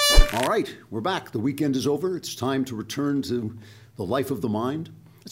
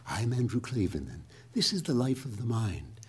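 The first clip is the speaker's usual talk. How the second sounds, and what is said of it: Quiet, cultured public-radio announcer voice. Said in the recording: “talked in an NPR voice ... speaking quietly so you think that I'm intelligent and cultured”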